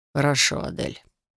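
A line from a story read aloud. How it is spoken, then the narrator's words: Quiet. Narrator (Russian): тихо, сказал лорд Эндер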